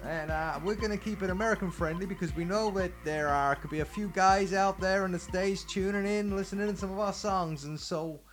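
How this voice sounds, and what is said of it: Fake American accent. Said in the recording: “that's not really his voice ... This is my radio voice ... this fake American voice”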